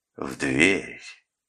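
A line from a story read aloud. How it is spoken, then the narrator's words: Soft commanding voice. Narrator (Russian): сказал я своим мягким командным голосом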